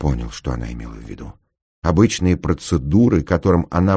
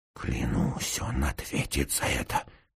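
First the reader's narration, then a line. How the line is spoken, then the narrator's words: Through gritted teeth. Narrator (Russian): сквозь зубы проговорил я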